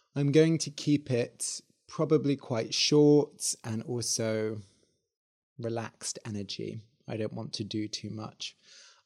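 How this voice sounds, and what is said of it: Croaky voice. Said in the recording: “my voice is a bit croaky today”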